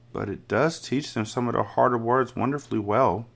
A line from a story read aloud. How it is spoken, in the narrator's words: Miss Honey murmured